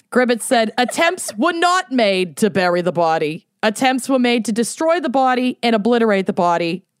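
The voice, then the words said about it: Boston accent. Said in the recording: “I love that this has just become fully Boston. ... It's a very interchangeable accent. ... It's fluid.”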